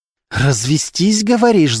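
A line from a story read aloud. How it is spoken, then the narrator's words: Hissed. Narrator (Russian): зашипела Полина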